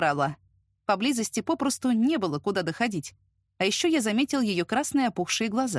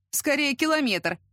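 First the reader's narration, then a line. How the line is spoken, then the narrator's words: Wry snort. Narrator (Russian): хмыкнул я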